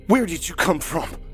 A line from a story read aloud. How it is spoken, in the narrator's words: Dave shouted in the pale and hairless creature's face